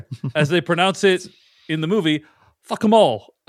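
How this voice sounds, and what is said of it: Put-on British accent. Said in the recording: “That's my British accent for you.”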